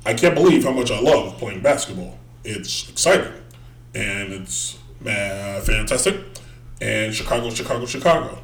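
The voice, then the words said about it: Barack Obama impression. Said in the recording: “I think I have a pretty good Obama impression ... That's pretty much how Obama talks.”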